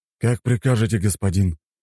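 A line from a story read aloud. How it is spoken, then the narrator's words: Resigned sigh. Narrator (Russian): вздохнул человек со жгутиками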